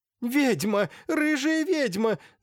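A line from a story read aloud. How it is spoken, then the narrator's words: Screaming. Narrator (Russian): закричала Аксинья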